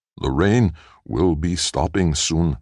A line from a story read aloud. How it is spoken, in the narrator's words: said Nx